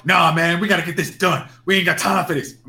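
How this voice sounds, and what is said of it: Poorly done put-on accent. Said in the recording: “my accent's horrible today”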